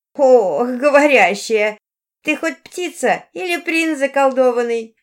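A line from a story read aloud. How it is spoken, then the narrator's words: Sudden laughter. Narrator (Russian): неожиданно рассмеялась толстушка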